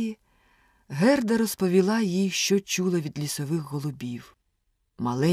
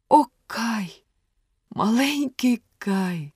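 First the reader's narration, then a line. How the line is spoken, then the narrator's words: Sigh. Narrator (Ukrainian): зітхнула Герда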